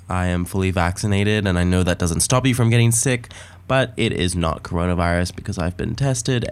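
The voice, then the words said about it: Deeper voice from a cold. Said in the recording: “run-of-the-mill cold that I've got ... my voice is a little deeper”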